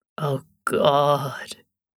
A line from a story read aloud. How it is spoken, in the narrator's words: Scott moaned appreciatively